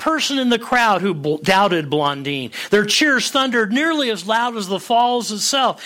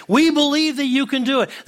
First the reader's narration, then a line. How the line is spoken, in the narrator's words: everyone shouted back